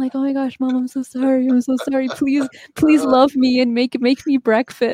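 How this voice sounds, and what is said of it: Usual voice. Nothing is said of it.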